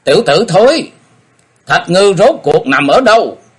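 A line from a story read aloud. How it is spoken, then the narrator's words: Sharp shout. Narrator (Vietnamese): Ông ta quát lên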